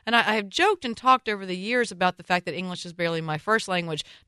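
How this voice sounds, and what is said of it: Southern American accent. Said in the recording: “how much they like my accent ... have been transplanted from the South”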